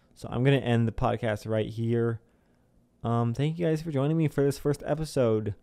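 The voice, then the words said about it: Hoarse, worn-out voice. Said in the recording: “my voice is completely gone. My throat is dry.”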